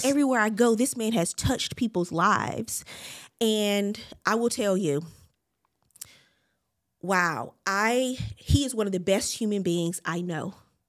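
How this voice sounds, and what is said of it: Emotional, tearful voice. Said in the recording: “I'm not going to get emotional. ... Y'all know the emotions be all over the place”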